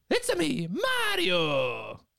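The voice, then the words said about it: Shady Mario impression. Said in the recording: “That was like Mario, but he's kind of in a dark alley, a street corner... Trying to sell you crack.”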